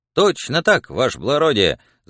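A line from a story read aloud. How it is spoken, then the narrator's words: Joyful, confident shout. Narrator (Russian): закричал Пискун радостным и уверенным голосом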